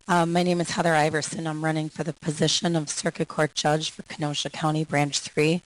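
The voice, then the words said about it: Hoarse voice, laryngitis. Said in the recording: “I have laryngitis, so hopefully you can hear me all right”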